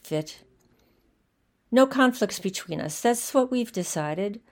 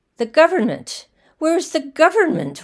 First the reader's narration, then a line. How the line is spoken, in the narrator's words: one cried